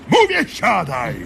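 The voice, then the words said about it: Shouting. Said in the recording (Polish): “nie krzycz”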